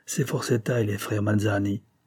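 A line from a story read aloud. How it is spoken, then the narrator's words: Murmuring. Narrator (French): murmura Dolores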